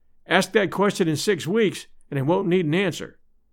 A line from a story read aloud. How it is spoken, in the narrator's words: I said